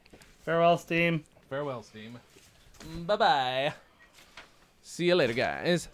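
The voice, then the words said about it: Weird comic foreign-sounding voice. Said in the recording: “That was not an attempt at Borat. That was just me being doing a weird voice, but it came out like I was doing ... I think we're actually doing Wild and Crazy Guy”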